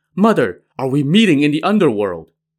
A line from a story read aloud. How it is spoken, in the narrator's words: exclaimed